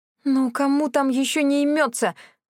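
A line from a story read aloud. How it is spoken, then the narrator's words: Groaning while running. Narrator (Russian): застонала я на бегу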